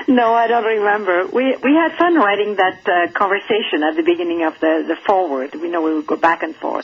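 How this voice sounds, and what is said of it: Speaks with a noticeable accent. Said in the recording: “accent ... my accent”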